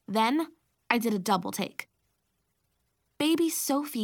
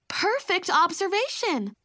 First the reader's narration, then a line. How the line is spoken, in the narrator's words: shouted Miss Alston